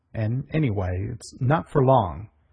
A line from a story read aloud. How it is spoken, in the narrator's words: growled the colonel, finding speech at last